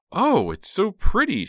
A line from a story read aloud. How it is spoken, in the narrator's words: she exclaimed